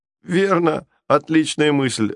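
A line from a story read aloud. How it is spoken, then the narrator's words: Laughing loudly. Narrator (Russian): расхохотался другой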